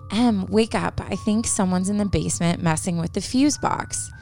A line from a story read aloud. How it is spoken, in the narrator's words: she whispered to her